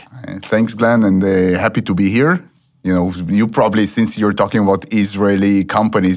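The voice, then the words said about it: Noticeable foreign accent. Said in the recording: “weird accents ... my accent is not going to throw people off too much”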